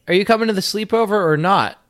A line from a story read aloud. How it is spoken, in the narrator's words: She yelled